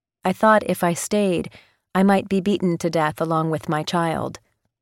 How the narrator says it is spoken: Mehabuba said

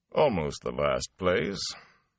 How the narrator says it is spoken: He paused, and dryly added

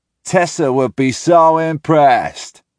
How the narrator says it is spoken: I say aloud, mocking Landon's voice

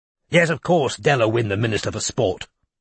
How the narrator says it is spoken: snapped Chisel

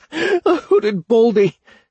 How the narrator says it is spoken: he chuckled

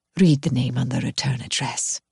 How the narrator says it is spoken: she says gently

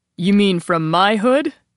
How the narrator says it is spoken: Daniel called over the ocean roar of the patrons

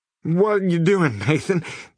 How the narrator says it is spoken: Harley yelled, but his words were barely intelligible through his slur

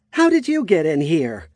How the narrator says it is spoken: She shouted in alarm

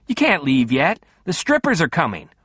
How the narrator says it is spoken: he yelled

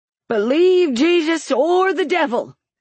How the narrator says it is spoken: he cried

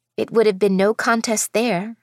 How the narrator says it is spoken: I remarked

